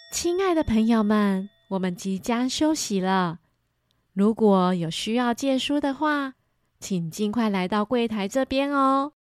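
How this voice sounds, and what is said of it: Soft, gentle voice. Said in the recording (Chinese): “图书馆员轻轻柔柔的声音说着”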